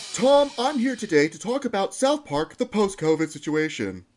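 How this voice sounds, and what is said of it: Mock news anchor voice. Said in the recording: “Trying to do my anchor voice there ... He's just like, a, "Hi, I am a news reporter."”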